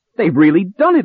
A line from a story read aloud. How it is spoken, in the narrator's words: I cried